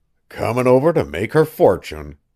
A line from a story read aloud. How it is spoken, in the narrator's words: muttered